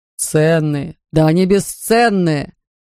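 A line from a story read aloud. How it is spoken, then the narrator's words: Miserable groan. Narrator (Russian): застонал несчастный мистер Хик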